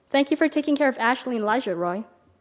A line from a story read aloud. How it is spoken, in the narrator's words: Carl said